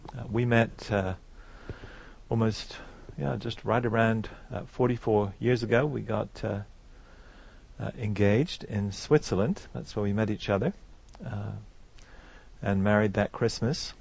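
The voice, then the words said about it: Slight English accent. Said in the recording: “I'm from England. You can still tell from my accent. I've got a bit of it left.”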